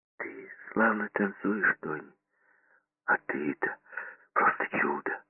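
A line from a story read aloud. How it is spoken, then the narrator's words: Whisper. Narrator (Russian): шепнул Бикет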